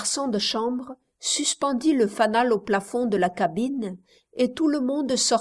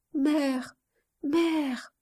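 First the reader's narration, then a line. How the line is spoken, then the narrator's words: Child's soft trembling voice. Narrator (French): disait par intervalle l'enfant d'une voix douce et tremblante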